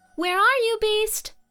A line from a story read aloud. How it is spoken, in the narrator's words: shouts